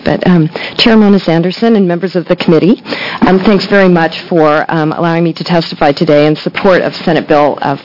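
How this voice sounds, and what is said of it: Slightly sick-sounding voice. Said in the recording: “I have a little bit of a cold”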